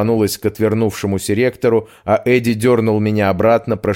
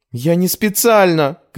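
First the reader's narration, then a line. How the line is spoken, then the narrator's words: Shout. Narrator (Russian): крикнула я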